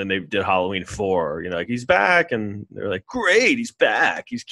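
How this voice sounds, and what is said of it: Usual voice. Nothing is said of it.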